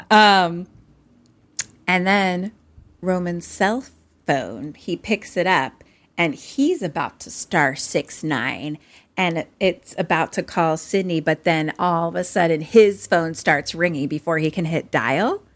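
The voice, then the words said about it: Philadelphia accent. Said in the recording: “I think that was just my accent. ... That's just my Philly accent.”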